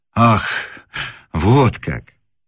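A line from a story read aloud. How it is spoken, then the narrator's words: Surprised exhale. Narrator (Russian): выдохнул Муравьев, ожидавший, видимо, чего угодно, но только не встречи с поэтом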